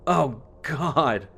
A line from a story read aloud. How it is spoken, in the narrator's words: I groan